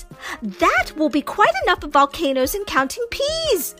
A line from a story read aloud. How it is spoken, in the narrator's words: shouted Mama